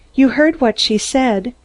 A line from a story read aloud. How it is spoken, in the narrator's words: Mary breathed